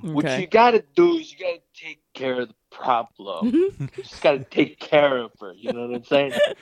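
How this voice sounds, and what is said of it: Imitates another person's voice. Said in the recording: “Is that an impression? Who's that an impression of? ... My dad.”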